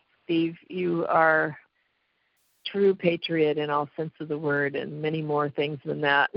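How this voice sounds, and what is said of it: Hoarse, strained voice. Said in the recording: “I've got a sore throat and I'm kind of losing my voice.”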